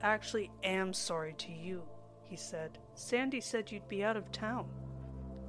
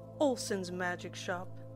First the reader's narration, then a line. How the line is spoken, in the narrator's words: he replied